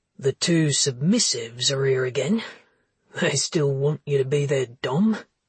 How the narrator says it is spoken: Joe chuckled again

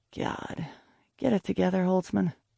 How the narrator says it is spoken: I muttered

